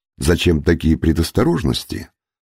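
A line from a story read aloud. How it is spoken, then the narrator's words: Plain. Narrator (Russian): Тарик ответил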